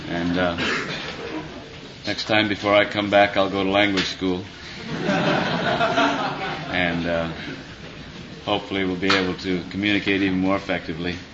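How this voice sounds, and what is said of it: Midwestern American accent. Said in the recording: “my Midwestern accent”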